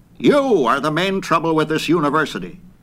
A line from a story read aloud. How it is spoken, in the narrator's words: General Littlefield, who was commandant of a cadet corps, snapped